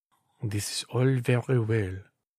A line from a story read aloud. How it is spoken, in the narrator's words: murmured the king